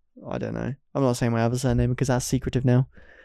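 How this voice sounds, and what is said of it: Usual voice. Nothing is said of it.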